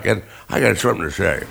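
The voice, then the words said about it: Imitates another person's voice. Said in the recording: “I turned into, magically, I chewed an ice cube that made me turn into Dick Van Dyke.”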